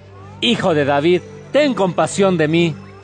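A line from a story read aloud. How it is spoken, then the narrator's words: Shouting even louder. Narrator (Spanish): él gritaba todavía más fuerte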